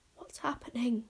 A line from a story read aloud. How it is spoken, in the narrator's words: whispered Bodkin, with round, wondering eyes